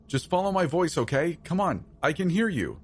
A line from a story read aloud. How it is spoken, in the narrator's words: I called out into the darkness